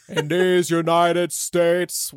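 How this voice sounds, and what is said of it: Bernie Sanders impression. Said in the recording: “your Bernie voice”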